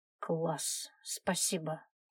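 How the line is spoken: Gloomy young woman. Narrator (Russian): мрачно ответила девушка

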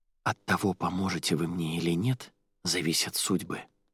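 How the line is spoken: Whisper. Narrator (Russian): прошептала Арадия

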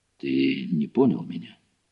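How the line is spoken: Weary sigh. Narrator (Russian): Гуров устало вздохнул

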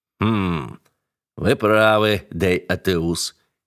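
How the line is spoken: Plain. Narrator (Russian): ответил Осмонд

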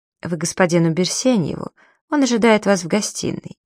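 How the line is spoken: Ingratiating question. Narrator (Russian): вкрадчиво спросил

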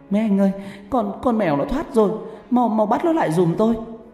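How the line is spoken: Panicked cry. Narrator (Vietnamese): Bà Tư hoảng hồn kêu lên

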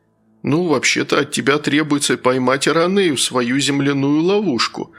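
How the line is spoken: Timid. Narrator (Russian): робко произнес Рик

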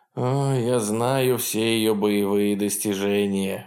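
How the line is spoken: Irritated grumbling. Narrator (Russian): в раздражении проворчал он

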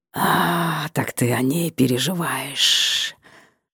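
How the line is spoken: Man hissing. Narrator (Russian): зашипел мужчина

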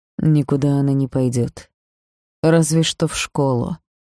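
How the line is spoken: Quiet. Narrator (Russian): тихо произнес Орин

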